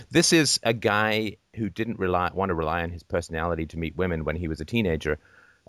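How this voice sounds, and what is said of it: Affected old-fashioned British-sounding accent. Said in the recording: “Nobody but me has my accent. It is not organic to anywhere in the world ... fruitified up his accent to the point where it just sounds like something that comes from a 17th century British court ... my accent is quite a menagerie”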